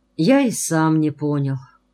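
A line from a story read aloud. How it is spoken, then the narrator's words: Tired reply. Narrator (Russian): устало ответил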